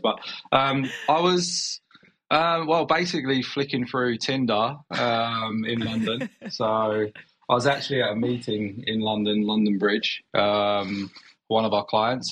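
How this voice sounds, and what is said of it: Slight noticeable foreign accent. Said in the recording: “I do notice a bit of an accent.”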